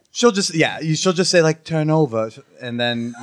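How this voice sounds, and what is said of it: Put-on British accent. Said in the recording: “say it in a regular voice ... that was like a British accent”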